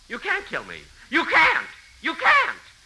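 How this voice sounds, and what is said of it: Loud, shouting voice. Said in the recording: “you'll have to lower your voice. This is a public library. ... I said, lower your voice.”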